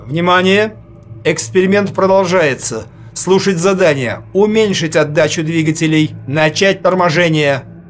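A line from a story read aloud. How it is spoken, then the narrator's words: Loud commanding voice. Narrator (Russian): громко командным голосом сказал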